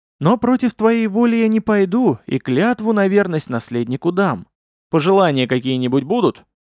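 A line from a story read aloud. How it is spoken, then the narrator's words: Exhaled words. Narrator (Russian): Фатеев выдохнул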